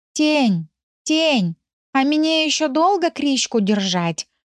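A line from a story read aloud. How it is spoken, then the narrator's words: Curious question. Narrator (Russian): поинтересовался Рыжик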